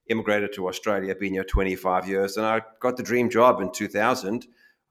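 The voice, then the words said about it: African accent. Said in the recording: “born in Africa, hence this accent”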